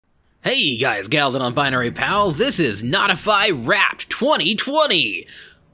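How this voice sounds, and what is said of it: Announcer voice. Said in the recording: “do the announcer voice”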